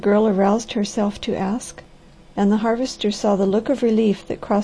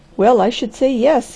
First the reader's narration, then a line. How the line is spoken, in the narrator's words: he laughed